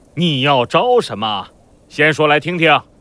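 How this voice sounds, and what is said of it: Deliberately stern, authoritative voice. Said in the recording (Chinese): “故意用威严的声音说道”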